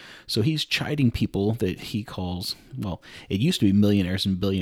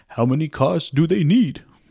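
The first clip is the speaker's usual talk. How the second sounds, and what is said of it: Imitates another person's voice. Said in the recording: “bad Bernie impression... that's about as close as I can get”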